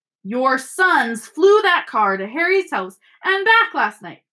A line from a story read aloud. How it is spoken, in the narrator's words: shouted Mrs